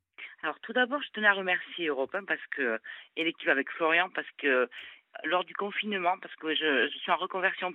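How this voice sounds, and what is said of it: Slight southern French Toulouse accent. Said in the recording (French): “D'où nous vient ce petit accent ... je suis toulousaine”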